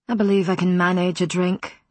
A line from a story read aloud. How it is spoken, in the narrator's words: Matthew said in a withering tone